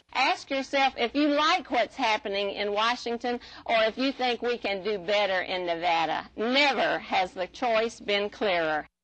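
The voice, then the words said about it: Thick Georgia Southern accent. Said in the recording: “She still carries a thick accent from her native Georgia.”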